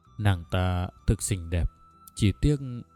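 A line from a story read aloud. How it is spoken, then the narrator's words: Soft regretful sigh. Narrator (Vietnamese): vua than khẽ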